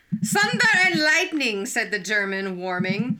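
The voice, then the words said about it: Put-on accent. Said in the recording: “Oh, I lost my accent.”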